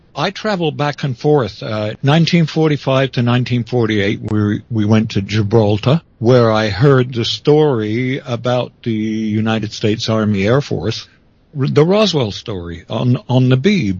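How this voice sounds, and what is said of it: English-tinged accent. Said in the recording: “So you stayed in England, which would explain the accent.”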